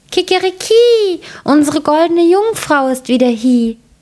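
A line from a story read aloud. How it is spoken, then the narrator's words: Rooster calling out. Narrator (German): der Hahn … rief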